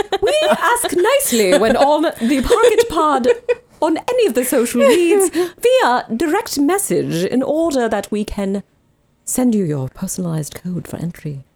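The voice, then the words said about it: Weird silly put-on voice. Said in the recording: “done with a perfect ... weird, silly accent. Voice.”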